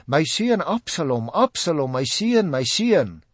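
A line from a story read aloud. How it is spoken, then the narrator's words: King crying out in grief. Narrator (Afrikaans): Die koning het sy gesig toegehou en hardop uitgeroep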